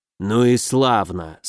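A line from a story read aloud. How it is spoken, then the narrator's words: Relieved exhale. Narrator (Russian): с облегчением выдохнул некромант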